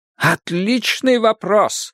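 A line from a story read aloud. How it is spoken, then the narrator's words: Exclaiming. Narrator (Russian): воскликнул сыщик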